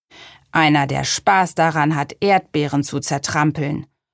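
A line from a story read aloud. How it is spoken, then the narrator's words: Growled. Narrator (German): knurrte Gurkenhut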